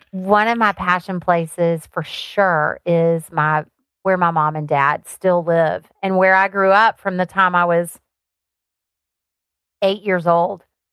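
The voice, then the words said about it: Thick Southern Alabama accent. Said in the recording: “I grew up on a farm in Alabama. That's where my accent came from... It's thick.”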